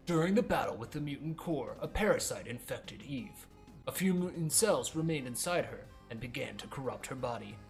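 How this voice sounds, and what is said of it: Different narrator voice for game text. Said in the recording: “I'm going to try doing a different voice ... that way you can tell when it's the game talking versus when it's me talking”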